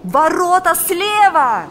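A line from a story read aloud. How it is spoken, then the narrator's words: Shouting. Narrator (Russian): закричал Валериан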